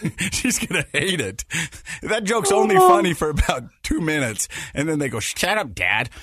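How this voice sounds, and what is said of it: Usual voice. Nothing is said of it.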